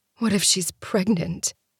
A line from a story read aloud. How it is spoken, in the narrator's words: She asks softly